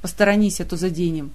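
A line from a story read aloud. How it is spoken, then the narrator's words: Gloomy grumble. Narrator (Russian): мрачно проворчал Элмор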